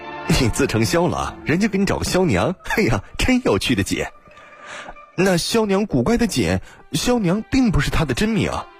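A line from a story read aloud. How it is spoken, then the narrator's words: Laughing. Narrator (Chinese): 王之焕笑道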